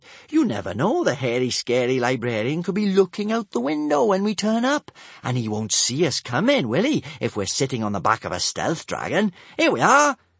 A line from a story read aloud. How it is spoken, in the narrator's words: she said happily